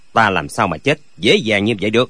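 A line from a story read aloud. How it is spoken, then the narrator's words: Cold. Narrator (Vietnamese): Lệnh Hồi Xung lạnh lùng nói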